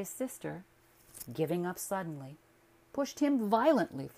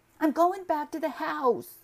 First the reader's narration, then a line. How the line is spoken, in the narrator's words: the boy cried, appealing to Stuart with his frightened eyes